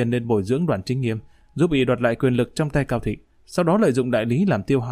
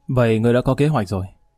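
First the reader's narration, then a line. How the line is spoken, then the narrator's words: Joyful laughing. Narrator (Vietnamese): Lòng Nhàn vui mừng, bật cười ha ha, chỉ nói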